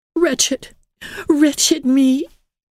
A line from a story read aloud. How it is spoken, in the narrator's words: she sobbed dramatically, but very sincerely